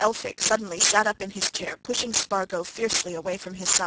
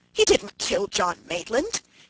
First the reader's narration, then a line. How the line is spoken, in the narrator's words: he cried angrily